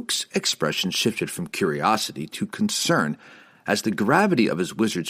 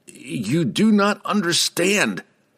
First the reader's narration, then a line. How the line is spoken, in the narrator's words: Laval cried